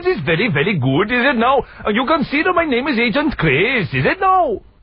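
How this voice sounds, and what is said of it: Poor put-on Welsh accent. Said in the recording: “dreadful Welsh accent... Absolute cack... it's absolute rubbish... my Welsh accent... Was that Pakistani?... it was Welsh!”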